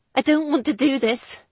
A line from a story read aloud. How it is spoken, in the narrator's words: she told him harshly